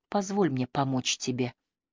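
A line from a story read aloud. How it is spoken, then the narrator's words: Female murmur. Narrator (Russian): пробормотала она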